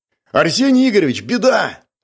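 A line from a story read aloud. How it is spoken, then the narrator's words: Young man yelling. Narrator (Russian): заорал один из ребят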